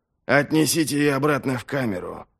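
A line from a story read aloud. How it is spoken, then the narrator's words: Commanding. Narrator (Russian): велел он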